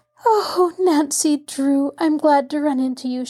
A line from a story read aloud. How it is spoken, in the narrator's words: she cried